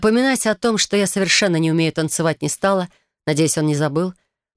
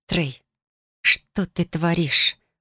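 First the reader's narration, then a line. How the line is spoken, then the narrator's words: Hissed. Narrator (Russian): прошипела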